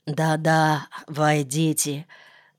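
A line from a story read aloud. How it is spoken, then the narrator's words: Hoarse whisper, throat clearing. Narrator (Russian): прошептал хрипло, откашлялся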